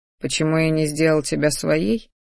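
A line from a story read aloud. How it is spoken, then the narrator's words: Soft velvety husky voice. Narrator (Russian): послышался тихий бархатистый голос с легкой хрипотцой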